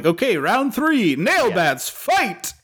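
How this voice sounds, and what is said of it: Video game announcer voice. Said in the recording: “Teenage Mutant Ninja Turtles announcer voice”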